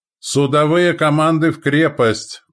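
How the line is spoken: Shouting. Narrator (Russian): прокричал Лютень

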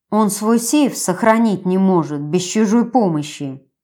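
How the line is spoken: Grumbling. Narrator (Russian): проворчала я

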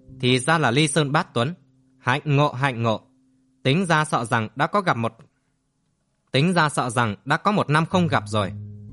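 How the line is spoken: Loud laughing. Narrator (Vietnamese): Đinh Khai liền cười lớn

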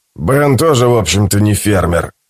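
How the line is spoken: Plain. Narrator (Russian): сказал шериф

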